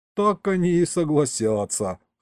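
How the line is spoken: Snort. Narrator (Russian): хмыкнул я

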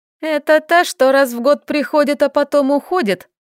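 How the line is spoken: Question breaking into laughter. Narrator (Russian): спросила и начала смеяться

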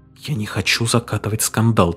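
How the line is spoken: Quiet. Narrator (Russian): тихо сказала она

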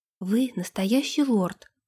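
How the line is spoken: Whispering. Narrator (Russian): прошептала

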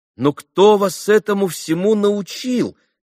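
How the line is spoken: Surprised exclamation. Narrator (Russian): воскликнул удивленный, наконец, Алеша

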